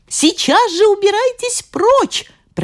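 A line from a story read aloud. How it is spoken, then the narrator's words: Shouted. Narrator (Russian): прокричала она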